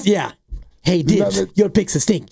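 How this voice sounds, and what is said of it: Snivelly imitation of another person's voice. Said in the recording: “your gee impression is more snivelly than he actually is ... You make him sound like a Batman villain.”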